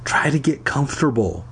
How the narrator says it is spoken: I whispered to Pat

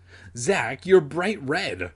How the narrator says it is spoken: her sister laughed

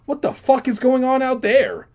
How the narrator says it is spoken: He cried

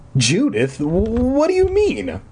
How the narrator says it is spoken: I sputtered

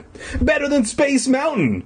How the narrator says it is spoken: Elliot exclaimed

